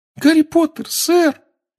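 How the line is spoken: Trembling squeak. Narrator (Russian): пропищал эльф, дрожа с головы до пят

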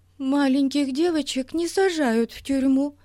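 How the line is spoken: Sobbing. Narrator (Russian): всхлипывала Бетси

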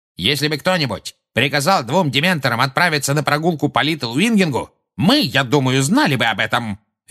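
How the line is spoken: Barking. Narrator (Russian): рявкнул Фадж

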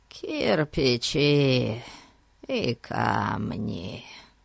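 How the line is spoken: Sad, tired old man's voice. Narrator (Russian): честно сказал Фати грустным, уставшим голосом старого человека

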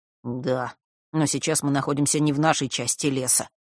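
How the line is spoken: Grumbling. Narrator (Russian): пробурчал Фэш

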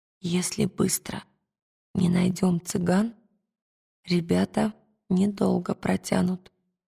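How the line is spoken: Whisper. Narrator (Russian): шепнула она Пантелеймону

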